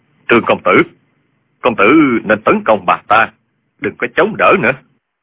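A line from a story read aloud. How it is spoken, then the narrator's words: Lowered voice. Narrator (Vietnamese): Dương Tiêu hạ giọng nói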